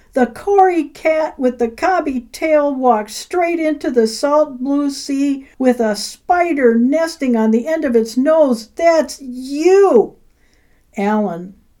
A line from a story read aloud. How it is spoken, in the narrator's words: He yelled